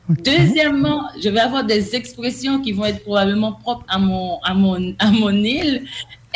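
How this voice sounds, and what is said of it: Haitian French accent. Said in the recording (French): “ma façon de parler, mon accent ... je suis une haïtienne ... on ne va jamais avoir le même accent qu'une personne qui est monolingue”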